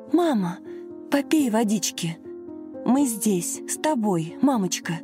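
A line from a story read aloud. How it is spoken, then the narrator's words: Anxious whisper. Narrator (Russian): взволнованно шептала Лена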